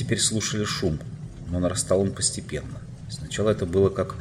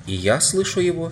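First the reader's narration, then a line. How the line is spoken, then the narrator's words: Plain. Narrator (Russian): сказала Джин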